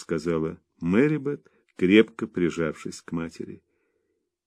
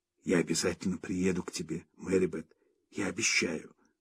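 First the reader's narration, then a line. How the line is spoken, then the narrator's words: Mother whispering. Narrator (Russian): шепнула мать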